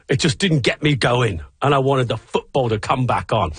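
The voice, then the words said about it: Put-on British accent. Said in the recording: “I'm going to read it in a British accent for you.”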